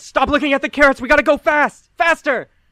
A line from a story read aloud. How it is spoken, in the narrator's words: Gilbert yells